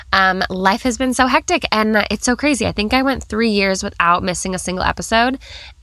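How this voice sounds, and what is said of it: Congested, stuffy-nosed voice. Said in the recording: “You probably hear I have a cold”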